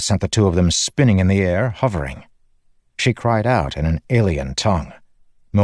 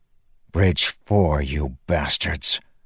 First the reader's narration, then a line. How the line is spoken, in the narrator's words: Moash growled